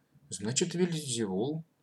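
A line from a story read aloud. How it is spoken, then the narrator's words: Timid agreement. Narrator (Russian): робко согласился Матвей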